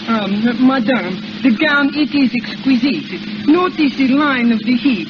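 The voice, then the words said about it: Put-on French accent. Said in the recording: “you can put on a little French accent ... practice up on your accent”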